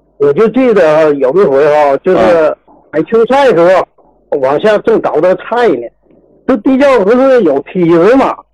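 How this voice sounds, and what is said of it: Northeastern Chinese (Jilin) accent. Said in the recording (Chinese): “你是东北的，听口音是哪的？是辽宁的还是哪儿的？ ... 吉林的。”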